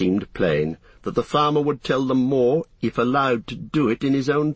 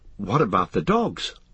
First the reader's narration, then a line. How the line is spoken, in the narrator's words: asked Frodo anxiously